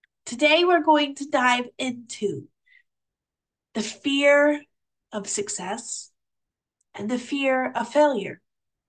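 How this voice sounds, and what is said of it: Muffled, stuffy congested voice. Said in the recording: “I am experiencing a bit of a cold. So if my voice sounds a bit different or more muffled or stuffy today, that is the reason.”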